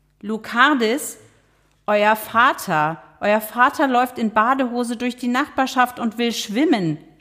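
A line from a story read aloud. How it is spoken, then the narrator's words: Shout. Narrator (German): schrie Loretta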